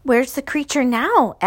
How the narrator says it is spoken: asked Measles nervously

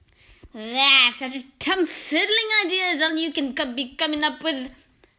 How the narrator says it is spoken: thundered the Grand High Witch

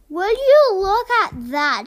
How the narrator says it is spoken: she exclaimed

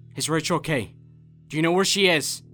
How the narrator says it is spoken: asked frantically

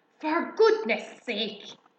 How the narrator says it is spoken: bellowed Mr

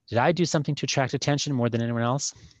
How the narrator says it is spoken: she said quickly, beggingly

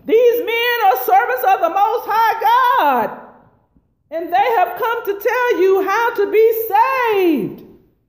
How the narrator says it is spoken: she followed Paul and the rest of us shouting

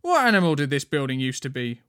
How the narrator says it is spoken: Wendy asked loudly from behind them

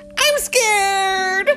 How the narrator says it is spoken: he screamed

